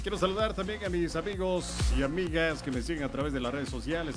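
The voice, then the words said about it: Radio announcer voice. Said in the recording (Spanish): “tú tienes voz de locutor ... soy un locutor”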